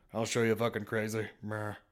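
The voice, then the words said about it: Terrible Johnny Depp impression. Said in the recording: “Johnny Depp's running around his kitchen slamming shit ... That's a terrible impression.”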